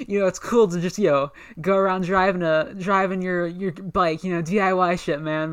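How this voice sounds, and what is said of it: Sensitive dude bro therapist voice. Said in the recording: “that's my impression. That's my impression of a dude bro therapist ... He's like a sensitive dude bro.”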